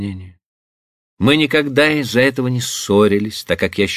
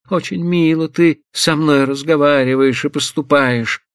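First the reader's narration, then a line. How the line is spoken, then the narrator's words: Tragic exclamation. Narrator (Russian): Трагическим голосом воскликнула она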